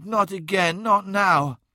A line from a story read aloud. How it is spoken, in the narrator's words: she moaned